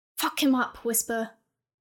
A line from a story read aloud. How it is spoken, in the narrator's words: Philip shouted